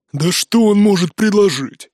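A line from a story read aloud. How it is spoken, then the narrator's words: Grumbling. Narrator (Russian): проворчал Нуке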